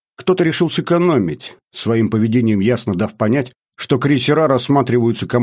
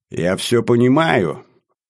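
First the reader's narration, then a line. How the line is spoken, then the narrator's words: Snide comment. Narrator (Russian): ехидно комментирует он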